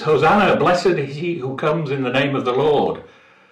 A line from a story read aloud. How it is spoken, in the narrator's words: the crowds shouting his praises